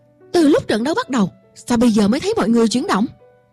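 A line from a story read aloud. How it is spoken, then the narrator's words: Angry. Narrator (Vietnamese): Huấn luyện viên Graham tức giận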